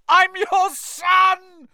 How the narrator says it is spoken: he screamed up at Crouch

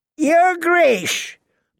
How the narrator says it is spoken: Lord Walder called out to Rob

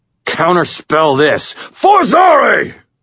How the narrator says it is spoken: I snarled

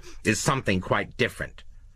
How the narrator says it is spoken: Lowe said sharply

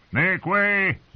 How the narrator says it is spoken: Jogo shouted

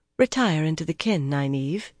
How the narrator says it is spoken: Egwene said gently

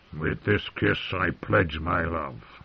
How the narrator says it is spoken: the dwarf replied hoarsely

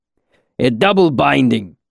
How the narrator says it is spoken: Kilvin corrected gruffly

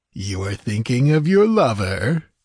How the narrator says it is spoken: he laughed

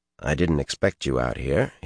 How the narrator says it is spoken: said in a low voice

